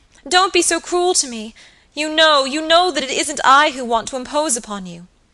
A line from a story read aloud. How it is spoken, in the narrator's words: cried Phoebe piteously